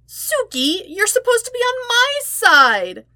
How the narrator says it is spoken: Sokka whined, pouting

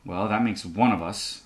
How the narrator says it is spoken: I mutter

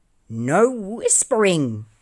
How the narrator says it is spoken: shouted the pudding angrily

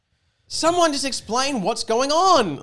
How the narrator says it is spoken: Luke yelled at the camera

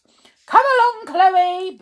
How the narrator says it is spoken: boomed Mother

